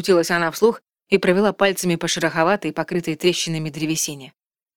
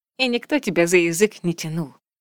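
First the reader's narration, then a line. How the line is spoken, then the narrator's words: Nasty giggle. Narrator (Russian): гаденько хихикая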